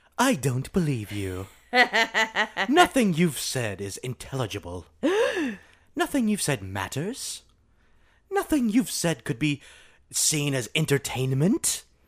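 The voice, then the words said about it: Put-on proper female British voice. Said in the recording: “But it talks very proper. ... I do a nice female British accent, clearly. ... it sounded a lot like Beans”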